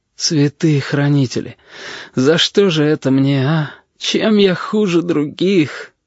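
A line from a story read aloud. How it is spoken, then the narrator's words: Sob. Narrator (Russian): Корнелий всхлипнул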